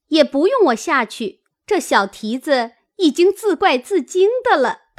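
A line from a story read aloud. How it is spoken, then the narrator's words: Laughing. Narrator (Chinese): 晴雯笑道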